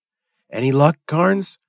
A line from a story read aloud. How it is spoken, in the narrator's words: he asked eagerly